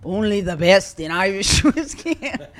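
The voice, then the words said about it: Poor attempted Irish accent. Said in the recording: “what accent ... Was that? ... Yeah, what was that? ... Oh, only the best accents. Yeah. Is that Scottish? ... Scottish. ... It wasn't even close.”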